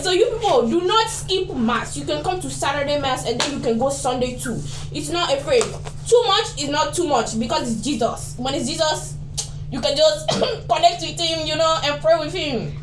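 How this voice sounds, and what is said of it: Stronger different accent when passionate. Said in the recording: “I notice when you get passionate, you dial in a different accent. You kind of have two different versions of yourself”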